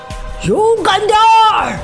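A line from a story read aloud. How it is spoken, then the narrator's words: Loud shout. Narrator (Chinese): 尼格德姆斯叔叔大喊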